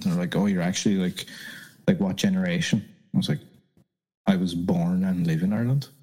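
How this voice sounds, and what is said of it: Irish accent. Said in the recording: “where's that accent from? And I'm like, oh, I'm from Ireland.”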